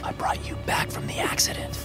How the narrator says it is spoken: I whispered

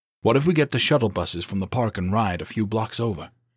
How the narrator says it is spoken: She sighed

